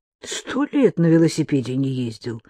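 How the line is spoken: Sighing. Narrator (Russian): вздохнул он

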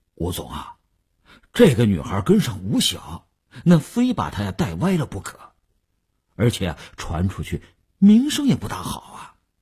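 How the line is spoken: Hesitant. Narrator (Chinese): 李大公欲言又止，李大公才说

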